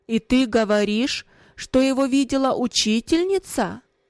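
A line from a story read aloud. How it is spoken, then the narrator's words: Raised voice, asking. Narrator (Russian): повысив голос, спросил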